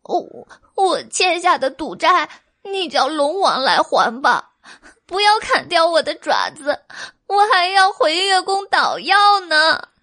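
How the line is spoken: Crying. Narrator (Chinese): 小白兔哭泣

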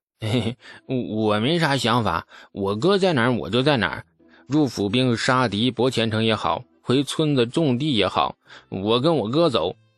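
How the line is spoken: Grinning. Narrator (Chinese): 王直咧嘴一笑

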